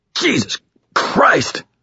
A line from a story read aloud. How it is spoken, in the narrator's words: Thomas stammered, his voice pained